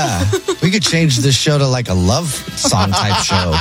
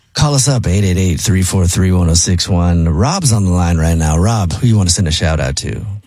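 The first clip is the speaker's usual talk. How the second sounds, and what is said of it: Smooth, sexy radio DJ voice. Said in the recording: “Jubal's sexy DJ voice ... It's pretty good. I can picture it really well, actually.”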